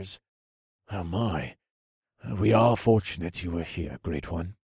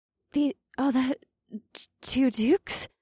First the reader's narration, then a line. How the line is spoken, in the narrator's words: Kalia stammered